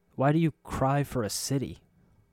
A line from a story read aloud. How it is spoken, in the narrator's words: His voice was hoarse